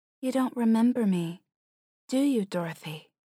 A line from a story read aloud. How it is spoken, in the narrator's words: she asks